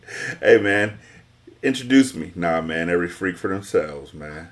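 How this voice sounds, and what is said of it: Put-on deep voice. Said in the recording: “I had the deep voice”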